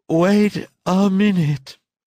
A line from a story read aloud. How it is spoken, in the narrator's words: he repeated in a palatal voice, gulping down between syllables the elastic pieces of yawn